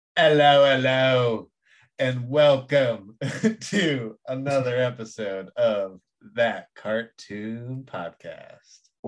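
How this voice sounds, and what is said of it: Put-on Beatles-style British accent. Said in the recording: “Why are you doing the Beatles? ... Everyone in this movie was from like New Zealand.”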